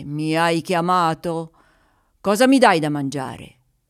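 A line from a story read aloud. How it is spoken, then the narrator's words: Powerful, fearsome voice. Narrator (Italian): Con una voce potente che avrebbe fatto tremare i più coraggiosi, disse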